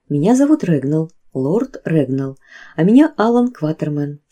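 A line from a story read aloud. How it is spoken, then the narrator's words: Plain. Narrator (Russian): сказал я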